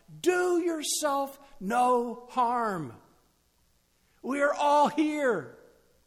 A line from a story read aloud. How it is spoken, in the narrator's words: shouts out